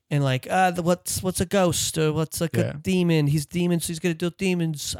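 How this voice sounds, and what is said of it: Put-on accent for a character. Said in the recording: “I don't know why I'm going with this accent because I'm giving this character kind of a shitty personality.”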